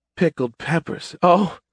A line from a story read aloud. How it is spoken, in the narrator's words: gasped